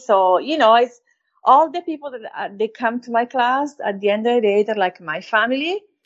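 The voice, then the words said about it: Italian-accented English. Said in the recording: “my accent. ... talk like the Italian”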